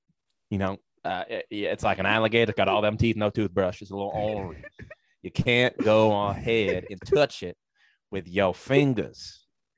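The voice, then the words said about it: Put-on Southern US accent, Louisiana-like. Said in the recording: “I went through, I think, the entire South with that accent. I think I started with an Alabama, and then I ended with like a Baton Rouge, some sort of Louisiana ... you got some Coach O in there”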